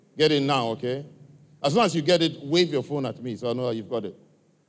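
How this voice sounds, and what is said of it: African accent. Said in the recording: “my accent, my African accent?”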